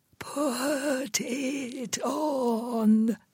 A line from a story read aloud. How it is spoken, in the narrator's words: she whispered a second time